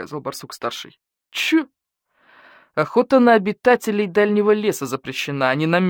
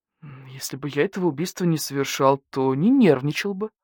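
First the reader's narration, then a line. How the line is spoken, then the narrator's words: Through gritted teeth. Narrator (Russian): процедил барсукот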